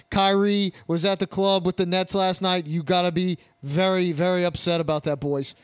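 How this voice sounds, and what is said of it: Poor put-on Boston accent. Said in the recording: “your impression of a fucking Boston accent? That was fucking terrible ... you're bad at accents”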